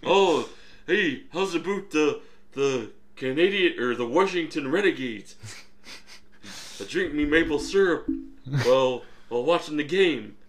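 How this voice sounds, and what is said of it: Put-on cartoonish Canadian accent. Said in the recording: “Why do you have to sound like Bullwinkle? When you do that voice? ... Was the Canadian voice also Bullwinkle inspired?”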